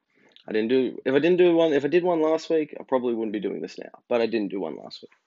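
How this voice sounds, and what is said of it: Sick, congested voice. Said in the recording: “If you can't tell, I'm sick... I have a cold, the common cold... I'm just feeling shitty”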